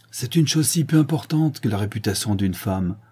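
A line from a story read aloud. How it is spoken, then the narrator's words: Curt, contemptuous tone. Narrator (French): dit enfin Sinclair d'un ton sec et méprisant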